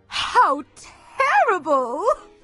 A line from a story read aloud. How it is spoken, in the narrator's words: gasped the Duchess, barely able to contain her laughter